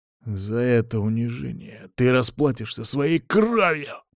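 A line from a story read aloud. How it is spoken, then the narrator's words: Straining growl. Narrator (Russian): прорычал он, в очередной раз дернувшись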